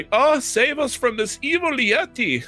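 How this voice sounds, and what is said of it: Light put-on German accent. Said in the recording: “I have like a light German accent.”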